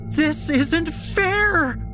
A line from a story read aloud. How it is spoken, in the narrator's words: she screams at the top of her lungs